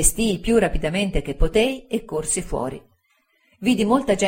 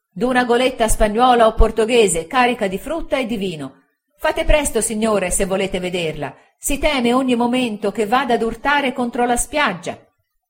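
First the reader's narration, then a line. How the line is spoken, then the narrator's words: Excited shouting coming downstairs. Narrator (Italian): quella voce eccitata discender la scala gridando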